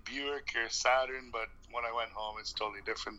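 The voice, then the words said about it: Canadian accent with British twang. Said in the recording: “how long did it take to develop that accent? ... people think I'm Irish. People think I'm from Australia. ... I thought I still had the Canadian accent, but I guess I've got a bit of the twang”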